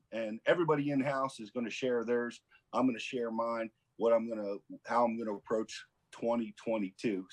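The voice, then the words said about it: Hoarse, froggy voice. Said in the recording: “you can hear the frog in my voice”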